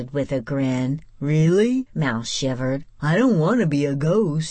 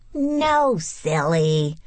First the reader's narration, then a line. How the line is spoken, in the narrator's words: Rebecca laughed